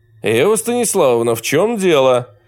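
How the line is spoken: Loud stern question. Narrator (Russian): Громко и сурово спросил Александр Николаевич

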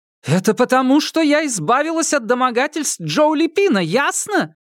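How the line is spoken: Sudden stung shout. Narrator (Russian): Возможно, задетая за живое, Фан Мэй вдруг крикнула

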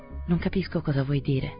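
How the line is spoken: Perfectly indifferent tone. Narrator (Italian): osservò sua moglie in tono perfettamente indifferente

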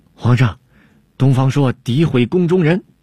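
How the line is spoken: Humiliated anger, complaining. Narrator (Chinese): 郭舍人 恼羞成怒 向汉武帝叫屈

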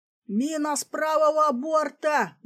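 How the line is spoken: Frantic scream. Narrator (Russian): истошно заорал сигнальщик богатыря

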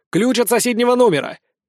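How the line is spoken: Shouted. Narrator (Russian): крикнул Лиззи

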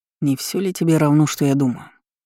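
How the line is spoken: Man's muffled question. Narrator (Russian): глухим голосом спросил мужчина

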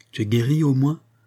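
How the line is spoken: Plain question. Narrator (French): demanda-t-elle à Monique

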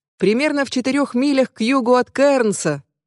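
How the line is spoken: Yelling. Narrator (Russian): вопит он

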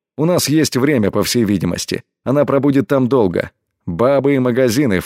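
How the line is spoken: Snorting. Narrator (Russian): фыркнул он

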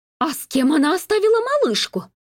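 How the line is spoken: Shrill squeal. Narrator (Russian): взвизгнула женщина-канарейка

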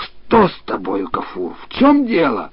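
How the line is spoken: Exclaiming. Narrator (Russian): он воскликнул

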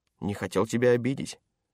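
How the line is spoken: Plain. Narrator (Russian): ответил научный сотрудник

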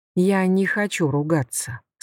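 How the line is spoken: Calm. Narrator (Russian): сказал он спокойно

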